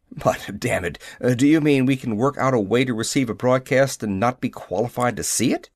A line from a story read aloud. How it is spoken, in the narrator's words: Graves sputtered